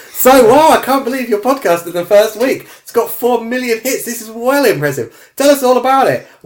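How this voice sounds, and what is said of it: Put-on Australian accent. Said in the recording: “Overdub some Australian accent.”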